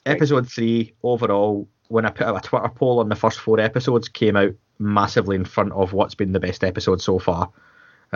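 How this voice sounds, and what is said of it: Scottish accent. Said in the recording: “difficult names to pronounce in a Scottish accent”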